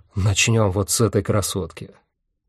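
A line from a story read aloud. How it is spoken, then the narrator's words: Excited whisper. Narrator (Russian): Михаэль возбужденно прошептал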